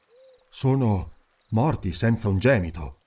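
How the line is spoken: Murmured. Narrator (Italian): mormorò

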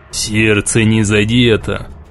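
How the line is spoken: Muffled, tired, unsteady voice. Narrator (Russian): Голос штурвала звучал глухо, устало и нетвердо

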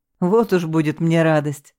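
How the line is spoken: Laughing. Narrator (Russian): засмеялся он

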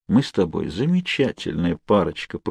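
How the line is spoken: Sad wry smile. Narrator (Russian): грустно усмехнулся я

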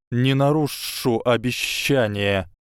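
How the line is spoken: Hiss. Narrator (Russian): прошипел Гарри

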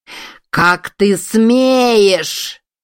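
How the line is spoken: Howling wind. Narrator (Russian): ветер взвыл

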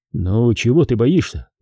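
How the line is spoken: Gentle speech. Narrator (Russian): ласково проговорил Степа

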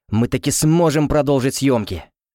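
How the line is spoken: Joyful exclamation. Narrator (Russian): радостно воскликнул Тофлер

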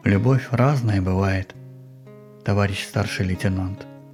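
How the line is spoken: Muffled flat voice. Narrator (Russian): глухо произнес

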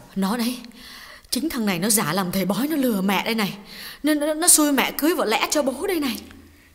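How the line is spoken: Trembling, quiet. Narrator (Vietnamese): Bà run run nói nhỏ với con gái

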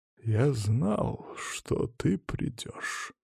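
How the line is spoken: Quiet insinuating menacing voice. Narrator (Russian): тихим вкрадчивым голосом, словно босс мафии, произнес Василий Павлович

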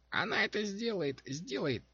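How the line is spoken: Squeaking. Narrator (Russian): пищал он

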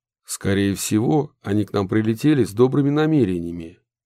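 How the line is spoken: Plain. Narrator (Russian): ответил Удалов

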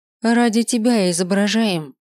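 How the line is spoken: Exasperated, through gritted teeth. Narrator (Russian): Не выдержав, процедила я

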